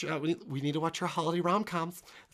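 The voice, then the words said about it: Poor imitation of another person's voice. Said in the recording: “It's not a good impression of her.”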